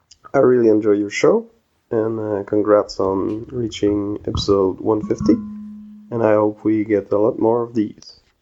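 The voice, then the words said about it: French Canadian accent. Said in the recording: “I love that French accent. ... she freaking loves the French accent”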